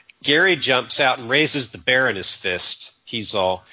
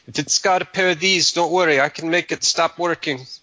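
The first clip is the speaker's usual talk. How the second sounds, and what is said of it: Put-on Mexican accent. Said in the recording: “That's my Mexican accent. ... I must be part Mexican because it sounds so natural.”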